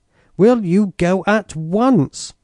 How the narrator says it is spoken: stamping her foot angrily

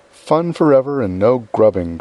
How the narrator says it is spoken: cried Joe

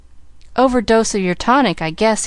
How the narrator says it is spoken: he laughed

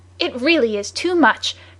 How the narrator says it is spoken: cried Michael Arden's adversary

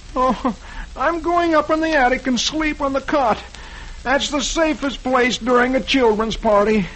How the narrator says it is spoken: poor, tired Dagwood, he groans

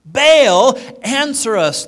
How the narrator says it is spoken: they shouted

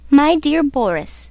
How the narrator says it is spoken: said the mother

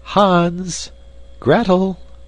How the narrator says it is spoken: called out a familiar voice

